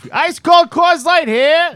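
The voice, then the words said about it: Fake stadium beer-hawker accent. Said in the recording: “Used to put on the fake accent, you know, going up the stairs”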